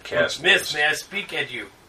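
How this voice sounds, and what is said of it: Fake Russian accent. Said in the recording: “in Russian accent.”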